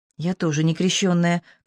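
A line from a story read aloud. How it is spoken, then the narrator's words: Quiet confession. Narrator (Russian): Ксения призналась тихо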